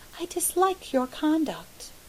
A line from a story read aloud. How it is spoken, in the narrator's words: she said calmly